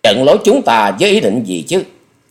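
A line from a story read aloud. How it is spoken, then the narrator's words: Harsh, tight-lipped anger. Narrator (Vietnamese): Độc Đao Tán Hồn Điệp mím môi gầy gắt nói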